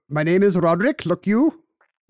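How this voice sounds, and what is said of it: Attempted Welsh accent. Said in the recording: “I can't even do a Welsh accent ... Is that it?”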